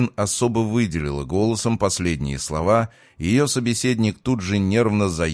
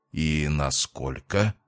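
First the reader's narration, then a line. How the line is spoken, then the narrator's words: Hoarse, then firm question. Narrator (Russian): хрипло спросил парень, но сумел совладать с собой и вернуть голосу прежнюю твердость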